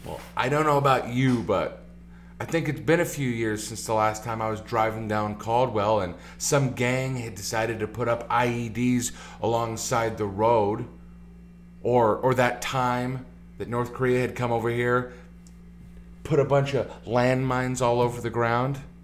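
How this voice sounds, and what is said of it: Sarcastic delivery. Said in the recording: “being sarcastic.”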